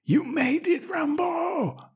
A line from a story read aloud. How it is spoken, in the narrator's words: she actually shouts